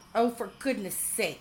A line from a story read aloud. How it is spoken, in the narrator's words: she snapped